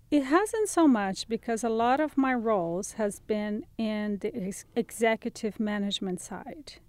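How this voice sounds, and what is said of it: Speaks with a noticeable accent. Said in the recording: “In part, it's your accent.”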